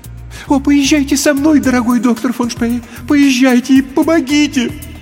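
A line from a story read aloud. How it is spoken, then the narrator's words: Pleading. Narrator (Russian): взмолилась женщина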